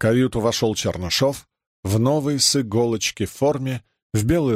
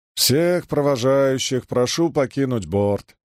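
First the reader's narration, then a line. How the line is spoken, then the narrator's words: Gloomy announcement over loudspeaker. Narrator (Russian): уныло вещал по трансляции Лыков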